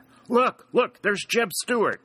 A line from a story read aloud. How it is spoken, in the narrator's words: exclaimed Dick